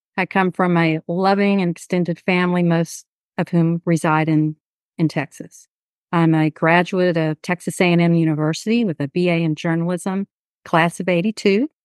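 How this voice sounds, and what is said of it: Southeast Houston Texas accent. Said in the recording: “my Southeast Houston accent is likely going to shine through this interview”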